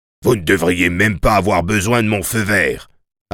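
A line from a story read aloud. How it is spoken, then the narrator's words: Barked. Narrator (French): aboya le médecin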